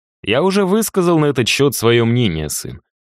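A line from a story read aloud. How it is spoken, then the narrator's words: Dry. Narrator (Russian): достаточно сухо прокомментировал Эрнест Васильевич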